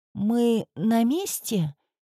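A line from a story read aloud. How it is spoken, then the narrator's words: Sleepy question. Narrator (Russian): Сонно спросила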